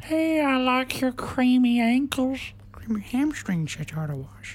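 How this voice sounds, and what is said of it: Good impression of a character voice. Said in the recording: “Herbert the pervert. ... probably my favourite character. ... you do a good impression there.”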